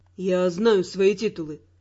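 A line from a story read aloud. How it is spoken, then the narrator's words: Calm. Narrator (Russian): спокойно сказал Раймонд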